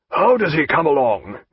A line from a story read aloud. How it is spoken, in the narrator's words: he asked in a hoarse voice